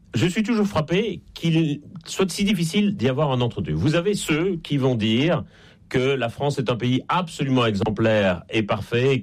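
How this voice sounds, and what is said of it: Slight Belgian French accent. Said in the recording (French): “ça s'entend un peu d'ailleurs à mon accent. Je suis en Belgique et je ne suis pas né en France”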